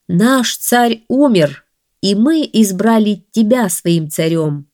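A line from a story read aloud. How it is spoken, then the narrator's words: Plain. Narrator (Russian): сказали Мухаммаду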